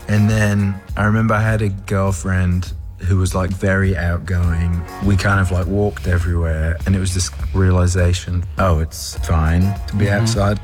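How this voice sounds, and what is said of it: Slight Australian accent. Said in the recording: “there's a bit of an Australian accent going on there”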